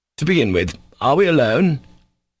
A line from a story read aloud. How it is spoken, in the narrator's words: Ivan asked sternly and impulsively